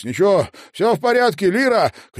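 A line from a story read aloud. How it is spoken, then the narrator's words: Shout, near tears. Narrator (Russian): крикнул он им через плечо, хотя сам едва не заплакал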